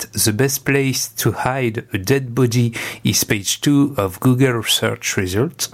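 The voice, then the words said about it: Poor accent in English. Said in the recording (French): “j'ai un accent de merde”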